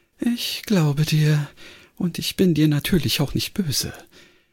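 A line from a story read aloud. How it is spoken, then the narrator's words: After a deep sigh, over loudspeaker. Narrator (German): Ein tiefer Seufzer drang aus dem Lautsprecher und dann sagte sie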